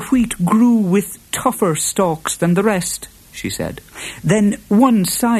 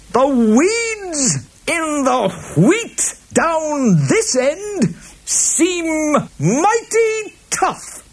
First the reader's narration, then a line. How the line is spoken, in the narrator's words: he shouted